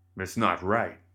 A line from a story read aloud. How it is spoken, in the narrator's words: Cornelius growled